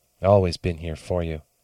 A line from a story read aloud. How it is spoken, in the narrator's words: muttered